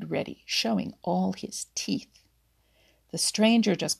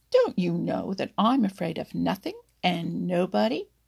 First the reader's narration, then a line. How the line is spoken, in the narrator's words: snarled Reddy Fox